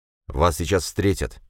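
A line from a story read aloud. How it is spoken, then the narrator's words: Plain. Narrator (Russian): ответил надзиратель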